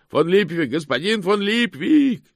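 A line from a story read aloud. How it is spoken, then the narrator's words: Shouted. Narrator (Russian): закричал кто-то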